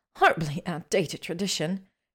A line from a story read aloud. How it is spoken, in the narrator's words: she grumbled to Ginny